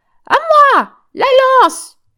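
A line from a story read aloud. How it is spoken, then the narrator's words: Screamed. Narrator (French): hurla Joséphine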